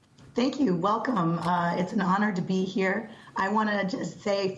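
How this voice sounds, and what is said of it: Hoarse voice from a cold. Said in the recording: “I am a little hoarse. I have one of those wonderful summer colds ... I hope that I'm audible and loud enough and understandable in this hoarseness ... gives you that resonant quality in your voice”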